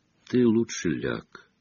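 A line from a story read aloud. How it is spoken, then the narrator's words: Calm. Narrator (Russian): спокойно сказал он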